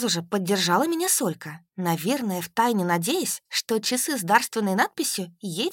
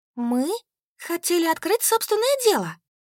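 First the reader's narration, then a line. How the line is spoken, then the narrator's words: Exclaimed. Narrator (Russian): воскликнула Солька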